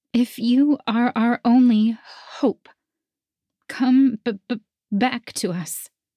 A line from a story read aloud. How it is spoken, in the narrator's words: I sobbed